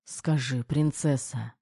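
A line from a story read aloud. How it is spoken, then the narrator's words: Muttered. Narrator (Russian): бормотал Кир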